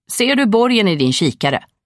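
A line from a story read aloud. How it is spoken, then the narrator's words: Fisherman calling out. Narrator (Swedish): ropade fiskaren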